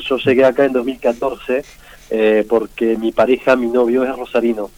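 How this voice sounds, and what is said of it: French accent speaking Spanish. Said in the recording (Spanish): “por nota mi acento”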